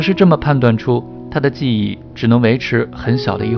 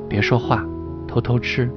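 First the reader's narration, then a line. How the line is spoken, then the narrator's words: Grandmother, quiet voice. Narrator (Chinese): 姥姥小声对我说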